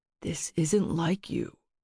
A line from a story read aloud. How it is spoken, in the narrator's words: said quietly